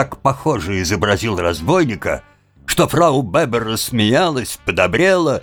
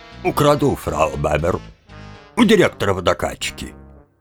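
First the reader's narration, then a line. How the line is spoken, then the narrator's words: Deep bass voice. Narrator (Russian): ответил басом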